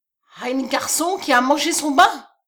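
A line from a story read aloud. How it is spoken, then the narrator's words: Terrified cry. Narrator (French): s'écria-t-il, frappé d'épouvante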